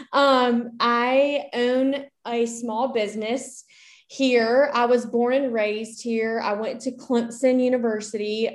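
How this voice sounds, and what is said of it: Southern US accent, South Carolina. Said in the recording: “I live in Columbia, South Carolina, and I'm sure you can hear that in my accent.”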